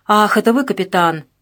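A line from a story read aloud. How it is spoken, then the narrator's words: Feigned casual, hidden irritation. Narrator (Russian): произнес Дворский нарочито небрежным тоном, за которым совершенно очевидно скрывалось раздражение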